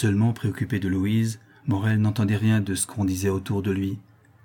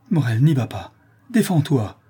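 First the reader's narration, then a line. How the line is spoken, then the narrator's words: Frantic cry. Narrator (French): s'écria Madeleine avec égarement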